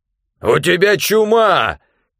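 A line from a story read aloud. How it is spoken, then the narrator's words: Shout. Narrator (Russian): крикнул он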